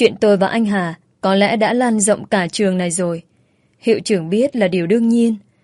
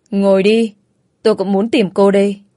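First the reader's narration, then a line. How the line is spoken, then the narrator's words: Sighing. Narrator (Vietnamese): hiệu trưởng thở dài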